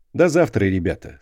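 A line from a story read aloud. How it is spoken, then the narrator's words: Plain. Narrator (Russian): сказал он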